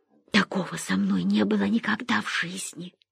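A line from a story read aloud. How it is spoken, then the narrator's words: Whispered. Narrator (Russian): прошептала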